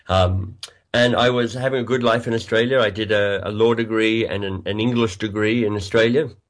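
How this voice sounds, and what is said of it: Australian accent, slightly congested voice. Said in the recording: “I'm Australian by birth. You might be able to hear that in my accent, although I've got a bit of a cold today”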